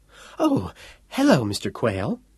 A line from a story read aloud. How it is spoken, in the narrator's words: she said nervously